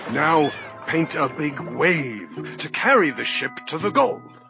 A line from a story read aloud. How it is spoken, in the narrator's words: he cried